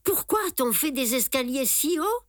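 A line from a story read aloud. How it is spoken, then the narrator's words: Exclaimed. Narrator (French): s'exclame Simon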